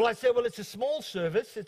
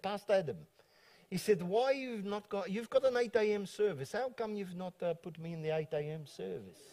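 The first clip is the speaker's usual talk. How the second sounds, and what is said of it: Put-on South African accent. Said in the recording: “I'm doing my South African accent, I hope I do a good job”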